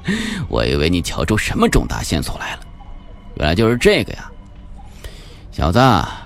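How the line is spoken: Loud laughter. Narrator (Chinese): 秦法医大笑

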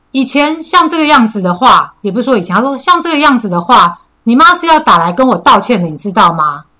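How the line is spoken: Angry. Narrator (Chinese): 很愤怒的眼神 他妈就讲了一句

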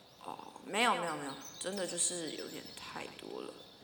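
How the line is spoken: Dazed mumbling. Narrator (Chinese): 同事有点恍神的样子，喃喃自语说

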